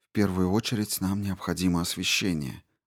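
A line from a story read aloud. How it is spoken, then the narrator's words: Muttering. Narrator (Russian): бормотала она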